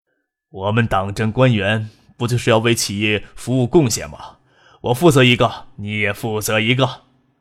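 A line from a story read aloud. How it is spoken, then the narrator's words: Cheerful, affected. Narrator (Chinese): 周富民笑逐颜开，拿捏着姿态对身边的陆光义说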